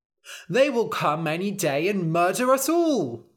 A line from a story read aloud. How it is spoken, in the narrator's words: cried the townspeople